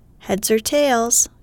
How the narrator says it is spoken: cries the tosser

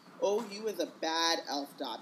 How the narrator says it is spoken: moaned Winky, tears leaking down her face once more

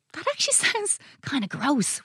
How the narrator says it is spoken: whispered Luke

